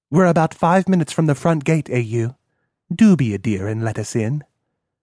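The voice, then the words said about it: British woman's accent. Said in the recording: “Funny accent. She sounded like a limey.”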